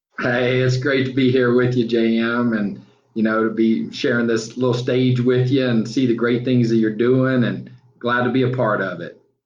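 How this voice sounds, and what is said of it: Southern drawl. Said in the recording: “You got a certain, that Southern drawl, people just love to hear it”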